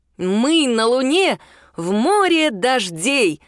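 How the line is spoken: Loud. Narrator (Russian): громко произнес Алекс

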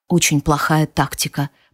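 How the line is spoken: Whisper. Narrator (Russian): прошептал он

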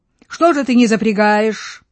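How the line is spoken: Shout. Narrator (Russian): Крикнул Бенедикту

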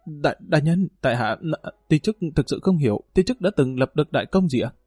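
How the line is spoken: Confused stammering. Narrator (Vietnamese): Dương Lăng lắp bắp

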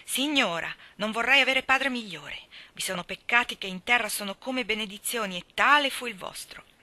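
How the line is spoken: Inward silent cry. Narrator (Italian): In cuor suo gridava con Filippo Falconbridge

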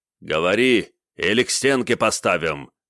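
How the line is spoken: Barking major. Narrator (Russian): рявкнул майор

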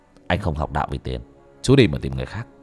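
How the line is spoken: Stern voice. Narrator (Vietnamese): bác cổ nghiêm giọng

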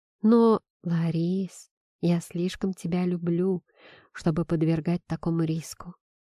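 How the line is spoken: Whispering. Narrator (Russian): прошептал

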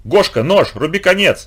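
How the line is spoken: Sudden yell. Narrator (Russian): вдруг заорал Ромка

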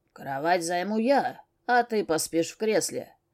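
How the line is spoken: Growling declaration. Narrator (Russian): заявил кто-то рычащим голосом

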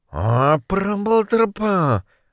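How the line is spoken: Muttered to himself. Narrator (Russian): пробормотал про себя Моррис

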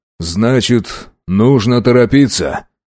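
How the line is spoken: Sigh. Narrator (Russian): вздохнул Касатонов

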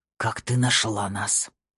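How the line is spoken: Hoarse breathless whisper. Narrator (Russian): Голос Эда сорвался на хриплый задыхающийся шепот

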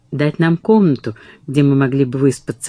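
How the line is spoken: Plain. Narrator (Russian): ответила Катрин

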